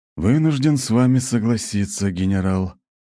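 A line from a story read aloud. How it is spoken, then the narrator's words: Muffled mutter. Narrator (Russian): глухо пробормотал Фригейл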